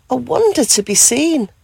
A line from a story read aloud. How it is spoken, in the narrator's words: she gasped with joy